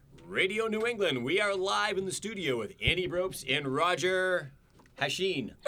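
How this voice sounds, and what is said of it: Polished radio announcer voice. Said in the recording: “you were sharpening that announcer voice, and you were spot on”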